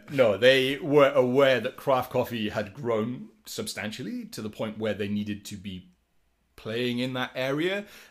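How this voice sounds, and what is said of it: Welsh accent. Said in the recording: “my accent aside ... they wanted a Welshman”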